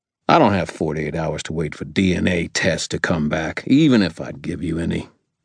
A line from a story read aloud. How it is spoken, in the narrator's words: Ebenezer growled